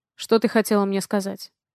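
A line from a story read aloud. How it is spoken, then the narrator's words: Cold question. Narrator (Russian): Холодно спрашиваю я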